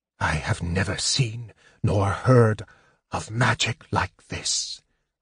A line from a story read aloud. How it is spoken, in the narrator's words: Raistlin whispered in awe